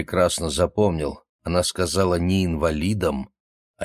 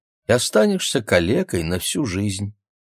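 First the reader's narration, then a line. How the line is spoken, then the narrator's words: Sighing. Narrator (Russian): вздохнула она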